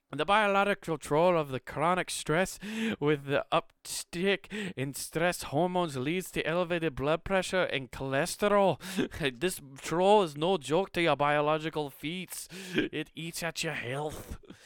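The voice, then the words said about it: Put-on Scottish accent. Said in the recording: “I'll stop with the fucking Scottish accent.”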